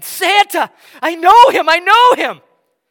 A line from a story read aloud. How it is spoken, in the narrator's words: he screams with this palpable excitement